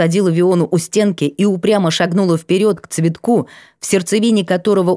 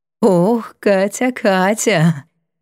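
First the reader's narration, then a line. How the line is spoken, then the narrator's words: Light sudden laugh. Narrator (Russian): неожиданно легко рассмеялась Сва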